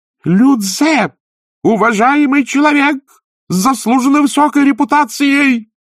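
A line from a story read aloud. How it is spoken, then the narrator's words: Yelling. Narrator (Russian): заорал настоятель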